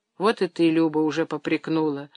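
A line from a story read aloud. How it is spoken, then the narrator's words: Muttering, restrained anger. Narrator (Russian): сдерживая гнев, пробормотал он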